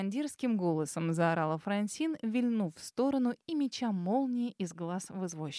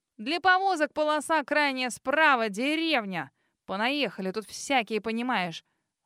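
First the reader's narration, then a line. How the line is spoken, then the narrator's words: Snorting, dismissive. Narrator (Russian): Фыркнула она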